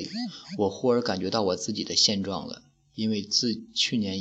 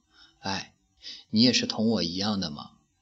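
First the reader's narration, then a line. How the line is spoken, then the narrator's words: Soft sigh. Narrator (Chinese): 微微地叹了一声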